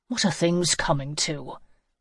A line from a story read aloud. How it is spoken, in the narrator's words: Hannah sighed